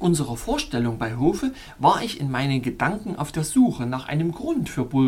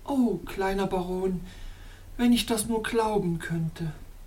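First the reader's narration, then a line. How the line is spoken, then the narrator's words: Sighing woman. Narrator (German): seufzte die schöne Damosel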